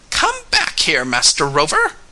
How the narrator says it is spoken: he cried

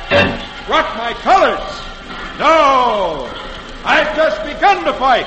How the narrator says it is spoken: with flashing eyes, John Paul Jones shouts back

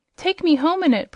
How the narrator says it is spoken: pleaded Zella

